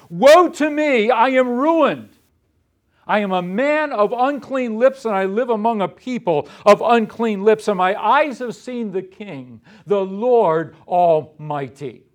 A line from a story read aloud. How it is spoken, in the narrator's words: Isaiah found himself in the presence of the Holy God, he was filled with alarm and terror, and he cried out